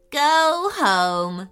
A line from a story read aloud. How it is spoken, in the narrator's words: chuckled Liam excitedly